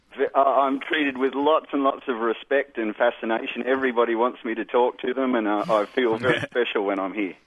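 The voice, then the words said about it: Australian accent with twang. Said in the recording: “what happens in Australia is the back of the tongue comes up quite high ... giving it that sort of twang ... how do you find your accent works for you in this country?”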